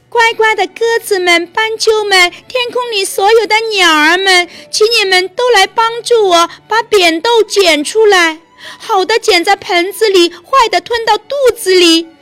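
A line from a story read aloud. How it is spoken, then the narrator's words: Girl calling out. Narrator (Chinese): 女孩叫道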